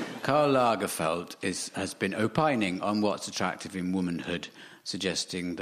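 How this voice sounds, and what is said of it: Usual voice. Nothing is said of it.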